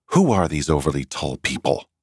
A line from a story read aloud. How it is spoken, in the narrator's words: wondered crossly